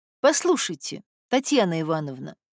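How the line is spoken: Soft speech. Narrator (Russian): мягко произносит Регина

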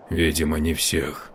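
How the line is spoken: Muttered. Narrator (Russian): буркнул Мию

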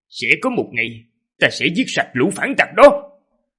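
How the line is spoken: Harsh, gritted voice. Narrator (Vietnamese): Bác Cung Vĩ Ương gằn giọng

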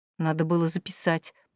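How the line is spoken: Mumbling. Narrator (Russian): пробормотала она

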